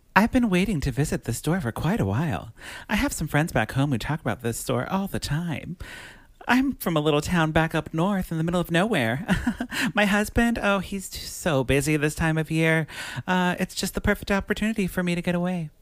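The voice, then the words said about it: Fancy, classy Beth Broderick impression. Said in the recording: “say it in my Beth Broderick voice ... Very fancy and classy and wonderful ... Beth Broderick 2020”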